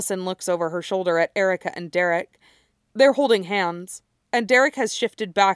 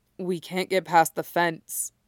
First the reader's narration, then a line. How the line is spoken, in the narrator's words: Derek says, his voice completely flat